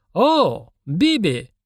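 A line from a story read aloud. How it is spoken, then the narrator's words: Exclamation, bearded man. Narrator (Russian): воскликнул бородатый индус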